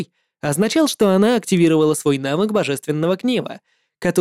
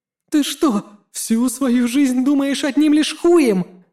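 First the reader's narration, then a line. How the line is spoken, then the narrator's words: Shouting. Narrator (Russian): закричала Физзи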